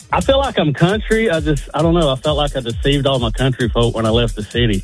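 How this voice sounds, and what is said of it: Southern American accent. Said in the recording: “he kind of spiced that southern accent up a little bit right there”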